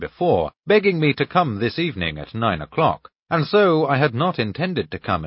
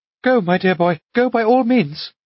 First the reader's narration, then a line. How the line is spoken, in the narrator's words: Anna Andreevna urged me anxiously